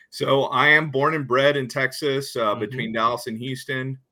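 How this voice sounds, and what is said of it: Slight Texas accent. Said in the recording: “I'm detecting a bit of an accent there, a Texas accent.”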